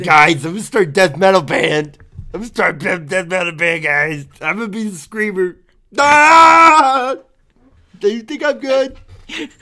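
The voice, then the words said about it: Imitates another person's voice. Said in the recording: “do an impression of me? Oh, let's hear your impression of me at high school”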